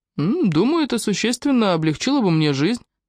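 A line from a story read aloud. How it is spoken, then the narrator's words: Cheerful, slightly mysterious. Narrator (Russian): ответил Фрэнк весело и слегка загадочно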